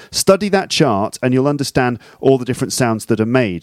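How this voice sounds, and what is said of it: British received pronunciation accent. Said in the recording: “an accent like mine, maybe. Let's call it received pronunciation. Okay, RP.”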